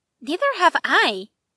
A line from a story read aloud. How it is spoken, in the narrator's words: they said cheerfully